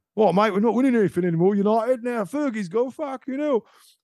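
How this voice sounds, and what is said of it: Put-on southern English accent. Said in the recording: “I can't leave the South accent now.”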